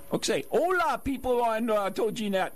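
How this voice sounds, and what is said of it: Spanish with a Japanese accent. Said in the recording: “You spoke Spanish with a Japanese accent.”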